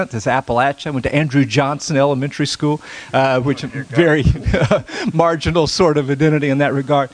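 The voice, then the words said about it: Southern Appalachian accent. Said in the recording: “You may detect a Southern accent here. I'm actually a hillbilly accent.”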